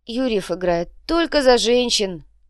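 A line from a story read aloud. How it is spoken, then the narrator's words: Dejected reply. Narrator (Russian): уныло ответил Инций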